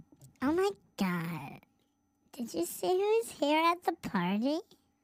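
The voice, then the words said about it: Put-on girl voice. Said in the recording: “do the girl voice”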